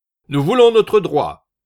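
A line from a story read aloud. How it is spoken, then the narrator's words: Shouted by weaver. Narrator (French): cria le tisseur à la barbe noire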